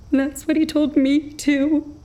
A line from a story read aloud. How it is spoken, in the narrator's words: she sobbed